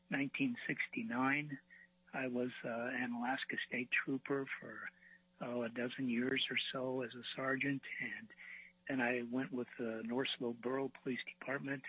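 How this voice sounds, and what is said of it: Weak voice. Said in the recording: “my voice is a little weak. I've just recovered from COVID, so I'm not feeling all that great.”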